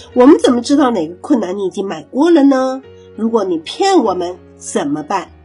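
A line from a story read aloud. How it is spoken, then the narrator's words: Plain. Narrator (Chinese): 点子大王 说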